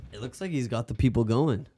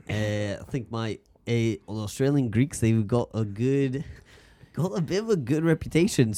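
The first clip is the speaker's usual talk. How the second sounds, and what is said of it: Put-on Australian accent. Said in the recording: “in your Australian accent ... Australian accent.”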